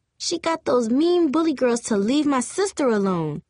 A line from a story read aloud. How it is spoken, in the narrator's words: Dion exclaimed in a loud, childish voice